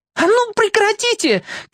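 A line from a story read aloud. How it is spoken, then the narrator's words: Shouted. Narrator (Russian): крикнула Саша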